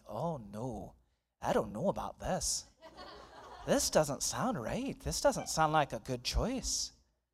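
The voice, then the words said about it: Embarrassing impression of golf commentators. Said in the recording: “my impersonation is going to be embarrassing”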